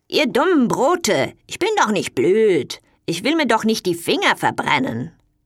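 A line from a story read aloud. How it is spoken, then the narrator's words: Called out. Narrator (German): rief die faule Marie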